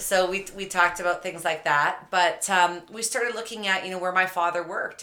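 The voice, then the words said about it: Slight Canadian accent. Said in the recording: “I'm from Canada. You might indicate a little accent from me.”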